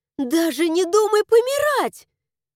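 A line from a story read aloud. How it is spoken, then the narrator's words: Indignant yelling. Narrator (Russian): Возмущенно завопила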